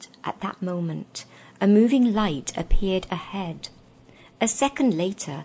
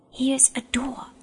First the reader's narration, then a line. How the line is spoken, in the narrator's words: she whispered